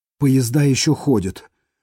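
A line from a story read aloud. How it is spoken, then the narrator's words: Relieved exhale. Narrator (Russian): облегченно выдохнула она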